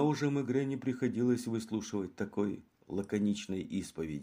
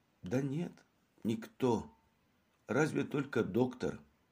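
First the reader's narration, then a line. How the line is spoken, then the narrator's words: Weary whisper. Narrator (Russian): Побледнев еще больше, она прошептала с усталой гримасой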